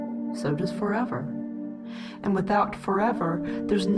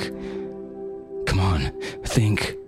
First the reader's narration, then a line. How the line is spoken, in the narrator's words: he panted